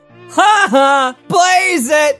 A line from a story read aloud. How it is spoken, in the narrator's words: One foolishly dank elf in the background broke the silence by yelling